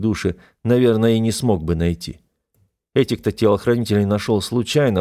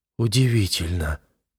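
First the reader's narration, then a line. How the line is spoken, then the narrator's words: Amazed mumble. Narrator (Russian): пробормотала сестра, пораженно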